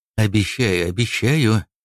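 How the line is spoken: Embarrassed mutter. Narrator (Russian): пробормотал, смущенный семейной сценой, что разыгралась на глазах у полковника уголовного розыска

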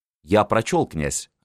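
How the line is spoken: Plain. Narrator (Russian): ответил секретарь

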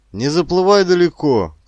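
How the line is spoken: Worried shout. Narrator (Russian): крикнул озабоченно Петр Константинович

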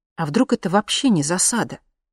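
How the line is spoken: Uncertain suggestion. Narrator (Russian): предположила неуверенно

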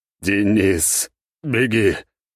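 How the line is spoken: Hoarse rasp. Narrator (Russian): прохрипел я

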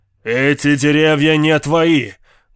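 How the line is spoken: Deafeningly loud. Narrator (Russian): Голос Винтера прозвучал настолько громко, что у меня заболели уши

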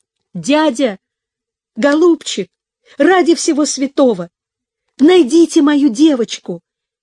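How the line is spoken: Pleading shout. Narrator (Russian): крикнул ему Пепси умоляющим голосом

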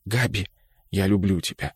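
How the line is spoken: Whispered. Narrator (Russian): шепнул он

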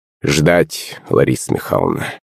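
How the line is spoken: Witch's gloomy reply. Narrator (Russian): мрачно ответила ведьма

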